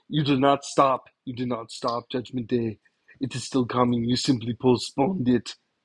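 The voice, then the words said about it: Imitates another person's voice, badly. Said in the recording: “a really bad impersonation ... my horrible impersonation of Arnold Schwarzenegger”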